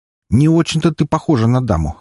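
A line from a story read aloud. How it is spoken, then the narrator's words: Scoffing. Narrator (Russian): хмыкнул один из них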